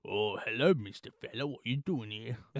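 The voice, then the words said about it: Put-on British accent. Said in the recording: “he has a British accent.”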